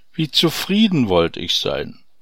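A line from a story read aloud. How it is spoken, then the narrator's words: Sighing farmer. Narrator (German): seufzte der Bauer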